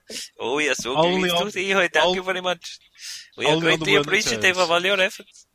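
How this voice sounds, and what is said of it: Put-on Indian accent. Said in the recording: “An Indian accent will suffice. ... she becomes Pakistani.”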